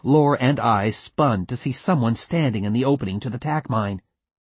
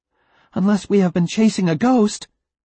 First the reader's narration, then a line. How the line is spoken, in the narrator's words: exclaimed Lore